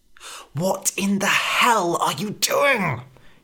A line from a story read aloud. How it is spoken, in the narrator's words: hissed Red